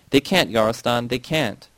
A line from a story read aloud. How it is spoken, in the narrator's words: She sobbing and shaking, and uttered weakly